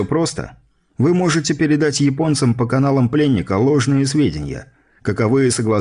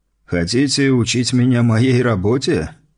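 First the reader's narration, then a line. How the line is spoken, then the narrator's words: Scoffing gendarme. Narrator (Russian): хмыкнул жандарм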